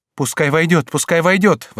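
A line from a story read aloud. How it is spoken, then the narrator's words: Queen's exclamation. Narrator (Russian): воскликнула королева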